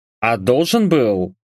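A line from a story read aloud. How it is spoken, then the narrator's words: Scoffing. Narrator (Russian): хмыкнул я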